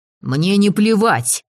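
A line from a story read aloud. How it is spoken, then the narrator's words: Curt, sharp retort. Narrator (Russian): резко бросил он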